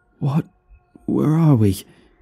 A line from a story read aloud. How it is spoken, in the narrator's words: he gasped out